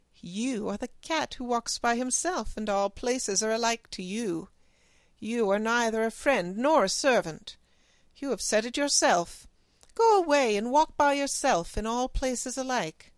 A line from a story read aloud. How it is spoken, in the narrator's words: Then the woman laughed and said